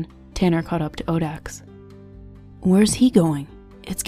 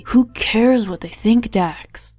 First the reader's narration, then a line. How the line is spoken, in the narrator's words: Zayrid exclaimed in exasperation